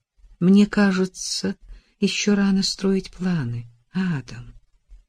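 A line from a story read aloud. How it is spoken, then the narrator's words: Soft gentle voice. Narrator (Russian): мягко сказала Эллен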